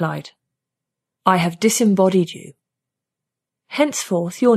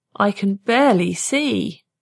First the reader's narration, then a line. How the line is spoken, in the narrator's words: he moaned